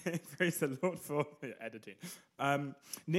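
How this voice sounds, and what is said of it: Usual voice. Nothing is said of it.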